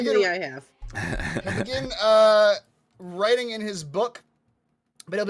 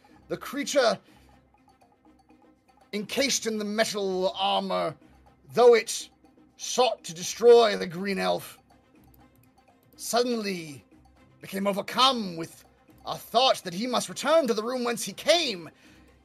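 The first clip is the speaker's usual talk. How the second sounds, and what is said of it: Character voice with changed accent. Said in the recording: “I don't know why my accent changed”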